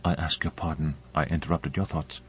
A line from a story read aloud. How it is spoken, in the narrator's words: She said softly